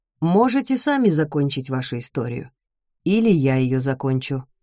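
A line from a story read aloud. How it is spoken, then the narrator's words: Calm. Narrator (Russian): спокойно говорит он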